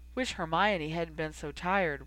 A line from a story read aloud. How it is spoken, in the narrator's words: Ron said with a sigh